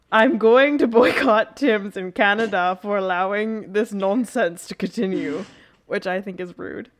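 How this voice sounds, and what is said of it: Odd put-on accent. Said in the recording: “I just want to know what this accent is. ... I don't know. It came out of me.”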